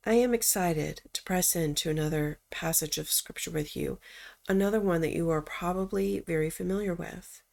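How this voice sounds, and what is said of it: Strained, slightly husky sick voice. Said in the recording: “I'm a little bit under the weather today, and that's why my voice sounds a bit strained. Or maybe it's sultry.”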